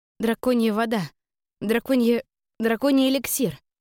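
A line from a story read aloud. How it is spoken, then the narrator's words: Timid squeaking. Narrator (Russian): робко попискивала я от бочки с водой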